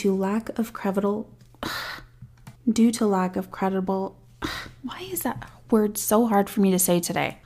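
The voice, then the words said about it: Voice strained by sore throat. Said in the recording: “I have the worst fucking sore throat. ... Legit, I really do have a sore throat. So if I sound weird, that's why.”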